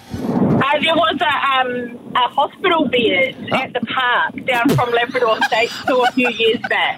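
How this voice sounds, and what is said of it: Very strong regional accent. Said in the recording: “You've got the strongest accent and all I keep hearing is beard.”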